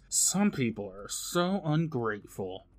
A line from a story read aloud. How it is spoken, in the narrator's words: murmurs